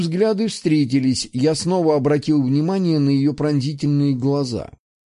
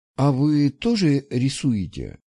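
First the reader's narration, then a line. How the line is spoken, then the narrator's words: Uncertain question. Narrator (Russian): неуверенно поинтересовалась девушка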